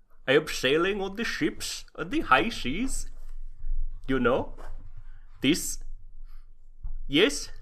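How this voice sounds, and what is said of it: Put-on stereotypical Viking accent. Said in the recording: “try the Viking accent”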